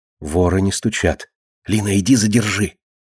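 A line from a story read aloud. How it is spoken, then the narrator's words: Whisper. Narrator (Russian): шепнула Марина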